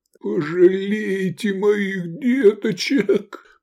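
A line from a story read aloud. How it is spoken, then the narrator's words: Moaning. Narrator (Russian): простонал Наси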